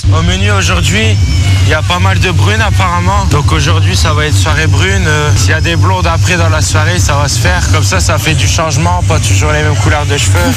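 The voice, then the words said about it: Exaggerated Ch'ti northern French accent. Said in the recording (French): “C'est un ch'ti à Ibiza... il se cale sur l'accent, hein. Je pense qu'il le choisit ça... On lui demande même de forcer le trait”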